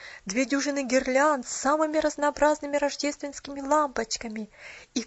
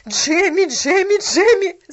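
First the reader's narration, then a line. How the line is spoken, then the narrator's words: Shouting. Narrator (Russian): закричала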